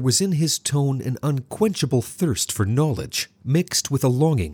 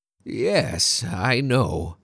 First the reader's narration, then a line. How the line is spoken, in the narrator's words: he replied in a creaky, aged voice